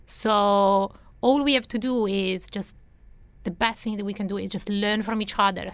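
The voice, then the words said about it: Italian accent. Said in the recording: “you might have picked up on my accent, you know, I'm Italian”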